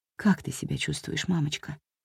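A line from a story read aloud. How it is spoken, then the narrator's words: Quiet question. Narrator (Russian): тихо спросила Хелен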